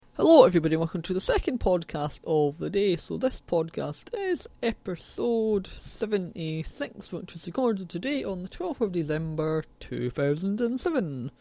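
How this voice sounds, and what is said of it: Scottish Glasgow accent. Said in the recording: “You can tell by my accent, I'm sort of from Scotland, like Glasgow”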